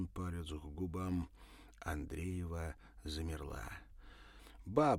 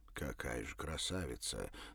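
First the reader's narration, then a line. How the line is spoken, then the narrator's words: Breathless admiration. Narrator (Russian): с восхищением выдохнул Савва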